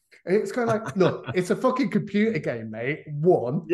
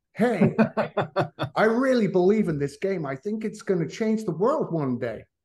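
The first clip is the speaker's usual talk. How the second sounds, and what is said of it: Bad put-on American accent. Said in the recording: “really appalling American accent”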